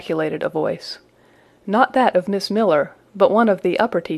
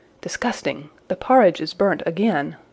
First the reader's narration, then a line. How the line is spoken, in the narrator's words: the tall girls of the first class, rose the whispered words